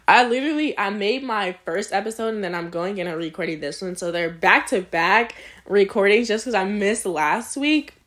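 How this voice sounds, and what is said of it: Hoarse, strained voice. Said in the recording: “losing my voice ... I've been talking for, like, 40 minutes”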